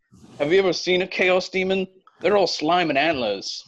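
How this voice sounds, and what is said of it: Put-on British accent. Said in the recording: “Amazing accent. You were born in Great Britain.”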